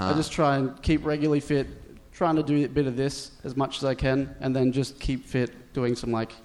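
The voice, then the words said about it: Thick Australian accent. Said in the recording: “I don't understand what he's saying. ... You have that thick accent. ... From Brisbane. ... So the accent's thicker in Brisbane, right?”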